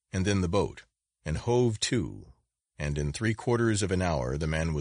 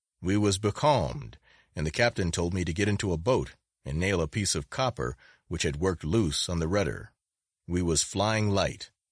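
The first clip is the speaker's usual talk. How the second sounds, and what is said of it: Hoarse, level, growling voice. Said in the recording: “speaking in a hoarse, level, growling voice”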